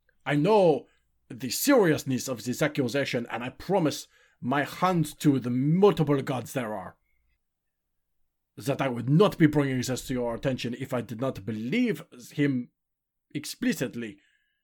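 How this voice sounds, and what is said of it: Inconsistent put-on accent, choked up. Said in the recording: “my accent is all over the place. I'm a little choked up”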